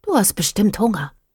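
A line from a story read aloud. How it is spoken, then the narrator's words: Whispered. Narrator (German): flüsterte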